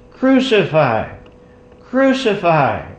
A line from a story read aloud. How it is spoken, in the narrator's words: chief priests and the officers, cried out, saying